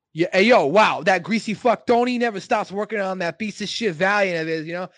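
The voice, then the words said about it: Exaggerated stereotyped Italian-American accent. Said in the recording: “Wop Dago ... That wasn't a good impersonation? ... That was pretty funny, though. Yeah, that was pretty good.”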